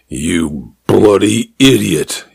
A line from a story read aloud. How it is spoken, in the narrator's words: he said, his voice flat with anger